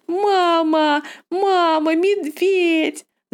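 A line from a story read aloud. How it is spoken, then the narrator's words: Screaming. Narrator (Russian): закричала Анна-лиса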